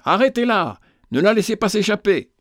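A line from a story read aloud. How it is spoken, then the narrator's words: Shouting. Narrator (French): criait-il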